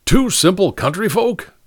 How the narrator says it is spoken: cried Ellery

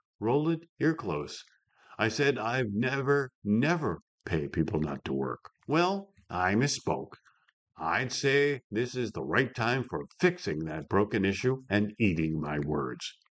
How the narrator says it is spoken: Geisek softly replied

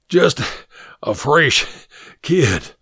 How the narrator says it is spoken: Hod Abrams panted

